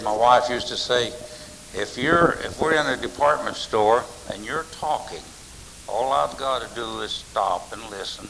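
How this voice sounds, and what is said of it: Loud voice with Kentucky accent. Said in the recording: “my voice carries, and I talk loud. And I have a very unique voice. I was born in Kentucky. Never have lost my accent”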